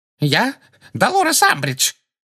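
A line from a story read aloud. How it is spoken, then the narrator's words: Shrill, terrified. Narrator (Russian): ответила Амбридж визгливым, насмерть перепуганным голосом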